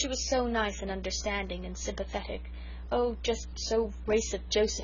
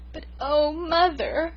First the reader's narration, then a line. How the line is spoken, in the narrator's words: I sobbed